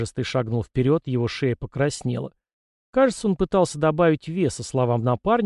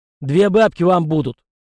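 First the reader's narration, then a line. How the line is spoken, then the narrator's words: Gruff barking shout. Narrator (Russian): Кряжестый рявкнул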